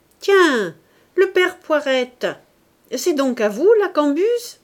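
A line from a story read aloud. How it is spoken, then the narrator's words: Embarrassed shouting. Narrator (French): lui criait, pour cacher sa gêne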